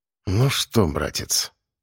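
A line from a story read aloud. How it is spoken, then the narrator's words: Low half-voice. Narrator (Russian): сказал я вполголоса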